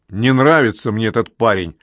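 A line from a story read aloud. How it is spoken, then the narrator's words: Growling burly worker. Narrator (Russian): прорычал рабочий с самой жуткой физиономией и могучими бицепсами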